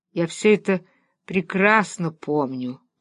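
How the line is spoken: Sigh. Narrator (Russian): вздохнул

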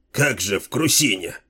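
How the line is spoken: Doubtful grumble. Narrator (Russian): буркнул второй сомневающийся в целесообразности такого предприятия человек

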